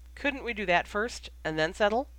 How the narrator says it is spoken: Remus laughed

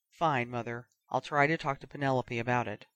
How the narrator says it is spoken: muttered

